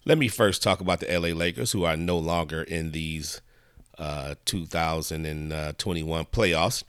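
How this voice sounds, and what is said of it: Hoarse, froggy voice. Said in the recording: “my voice is sounding a little bit froggy”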